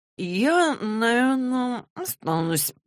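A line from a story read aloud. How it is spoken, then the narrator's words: Mumble. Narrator (Russian): промямлил он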